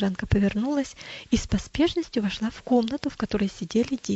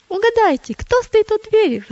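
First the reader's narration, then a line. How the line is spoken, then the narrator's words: Exclaiming. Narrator (Russian): воскликнула она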